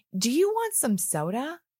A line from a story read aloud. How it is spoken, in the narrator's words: Andre cried